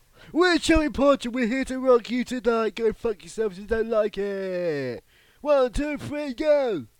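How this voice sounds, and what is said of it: Fake British punk accent. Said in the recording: “that was a good impression ... affecting a horrible British accent that doesn't sound real ... a bad accent”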